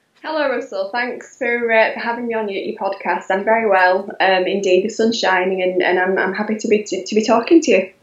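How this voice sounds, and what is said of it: Yorkshire accent. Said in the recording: “you have a very distinctive accent ... I'm from Yorkshire ... the Yorkshire twang”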